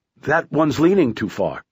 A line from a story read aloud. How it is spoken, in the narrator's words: Curtis said